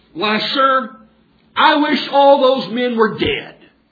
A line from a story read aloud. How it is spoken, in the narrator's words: In frustration and desperation, he exclaimed very loudly